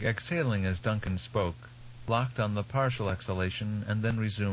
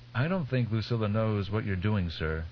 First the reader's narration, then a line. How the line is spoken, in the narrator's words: Duncan said